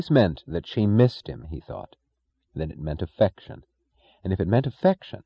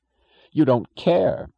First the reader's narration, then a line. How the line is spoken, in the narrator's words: her voice went half spitting, half begging on